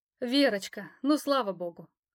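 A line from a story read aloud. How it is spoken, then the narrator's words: Relieved exhale. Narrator (Russian): выдохнула она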